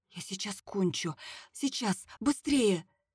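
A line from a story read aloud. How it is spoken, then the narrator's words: Quiet whisper. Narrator (Russian): Алена тихо прошептала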